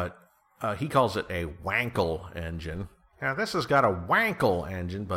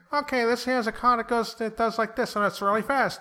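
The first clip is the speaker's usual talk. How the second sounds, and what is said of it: Imitates another person's voice. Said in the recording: “do a Jay Leno voice ... That was my best Jay Leno impression.”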